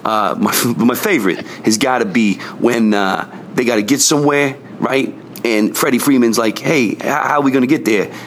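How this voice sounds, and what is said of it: Brooklyn accent. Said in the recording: “finally accepts his Brooklyn heritage and out comes the accent ... normally he's just a very well-spoken lad”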